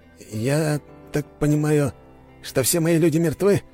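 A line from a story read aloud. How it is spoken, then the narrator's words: Strained, forced out. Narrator (Russian): с трудом выдавил из себя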